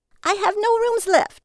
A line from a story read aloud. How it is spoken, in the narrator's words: she screamed